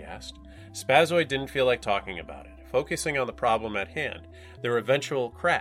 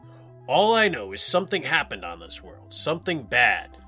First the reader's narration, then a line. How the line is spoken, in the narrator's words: he said in a dark, ominous tone